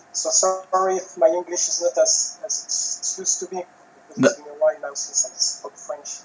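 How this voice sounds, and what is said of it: French accent in English. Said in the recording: “my French accent.”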